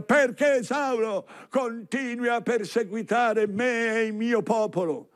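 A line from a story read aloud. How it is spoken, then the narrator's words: Shouting from above. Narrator (Italian): Cristo di sopra grida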